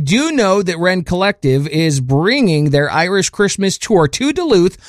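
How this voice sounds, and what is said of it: Usual voice. Nothing is said of it.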